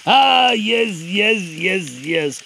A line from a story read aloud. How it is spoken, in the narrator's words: mumbled the third